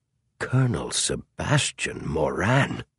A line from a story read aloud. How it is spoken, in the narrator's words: muttered Clarence King